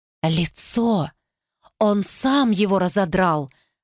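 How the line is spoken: Muttering. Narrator (Russian): пробормотала она

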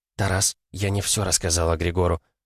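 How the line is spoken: Whisper. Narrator (Russian): также шепотом произнесла она

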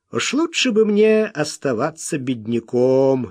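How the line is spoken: Cheerful. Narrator (Russian): весело сказал он

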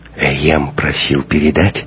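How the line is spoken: Whisper. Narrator (Russian): шепотом сказала Ева

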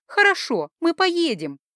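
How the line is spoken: Joyful declaration. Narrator (Russian): радостно заявила Норан Дириэль

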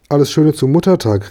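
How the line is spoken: Called out. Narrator (German): rief der Franz

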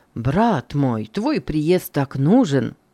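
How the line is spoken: Plain. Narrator (Russian): он сказал

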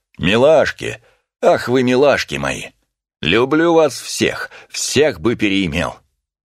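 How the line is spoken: Loud drunken shout. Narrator (Russian): Чей-то пьяный голос громко выкрикнул

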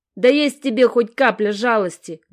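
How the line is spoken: Wailing howl. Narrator (Russian): взвыл

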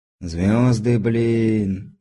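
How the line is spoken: Enchanted drawl. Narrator (Russian): зачарованно протянул

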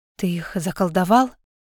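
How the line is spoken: Frightened whisper. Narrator (Russian): испуганно шепнула Алекса

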